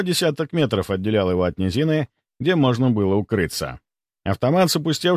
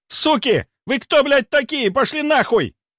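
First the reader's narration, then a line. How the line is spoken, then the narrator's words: Panicked shout while fleeing. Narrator (Russian): кричал убегающий сталкер, единственный оставшийся в живых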